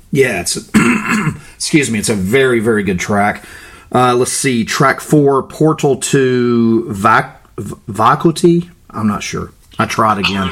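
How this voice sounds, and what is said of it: Florida American accent. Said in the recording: “my Florida accent”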